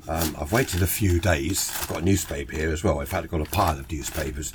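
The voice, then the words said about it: Congested voice from a cold. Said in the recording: “I've got a cold, so sorry about that ... to try and get my cold a bit better”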